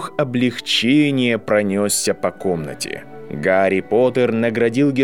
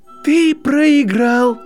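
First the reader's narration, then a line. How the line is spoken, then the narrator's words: Shrill scream. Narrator (Russian): завизжала Гермиона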